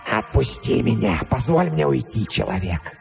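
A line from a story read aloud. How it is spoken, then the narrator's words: Hoarse, heavily accented, expressive. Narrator (Russian): Хриплый голос и сильный акцент придавали его словам необычайную выразительность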